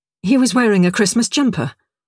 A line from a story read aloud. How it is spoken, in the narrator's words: explained quickly